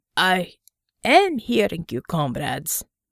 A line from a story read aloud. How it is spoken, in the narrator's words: Bear grumbled from his seat